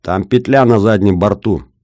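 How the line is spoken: Shouting. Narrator (Russian): крикнул Бобров

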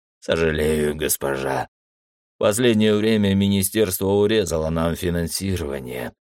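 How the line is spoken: Sighing. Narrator (Russian): вздохнул

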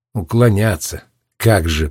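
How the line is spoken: Muttered under breath. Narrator (Russian): пробурчал под нос Роджер

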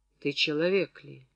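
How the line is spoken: Quiet surprised question. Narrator (Russian): удивленно и тихо спросил Курганов

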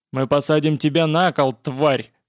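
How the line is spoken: Hoarse bass threat. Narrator (Russian): хриплым басом пообещал погромщик

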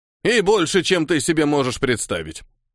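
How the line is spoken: Snorting. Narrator (Russian): хмыкнул Хильдефон

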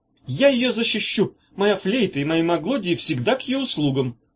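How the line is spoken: Fervent shout. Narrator (Russian): С горячностью крикнул Корнелий

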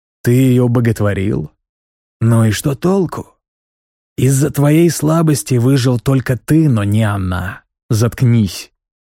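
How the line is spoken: Growl. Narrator (Russian): прорычал

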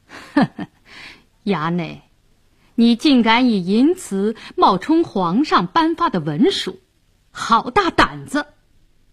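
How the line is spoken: Sneering. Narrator (Chinese): 白世忠冷笑道

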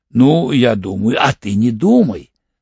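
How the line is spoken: Angry reply. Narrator (Russian): зло ответил Орлов

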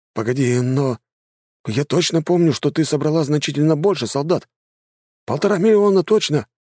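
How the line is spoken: Exclaimed by a boy. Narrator (Russian): воскликнул паренек

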